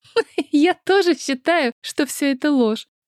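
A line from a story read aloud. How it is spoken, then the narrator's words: Laughing. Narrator (Russian): рассмеялась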